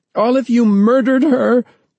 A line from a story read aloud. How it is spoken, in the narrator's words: Laura's mother, sobbing, screaming